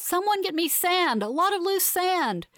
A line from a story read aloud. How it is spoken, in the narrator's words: she yells